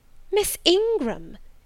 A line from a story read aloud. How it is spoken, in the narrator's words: exclaimed Mrs